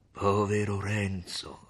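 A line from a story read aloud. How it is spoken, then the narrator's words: Grave, compassionate voice. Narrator (Italian): rispose il frate con una voce grave e pietosa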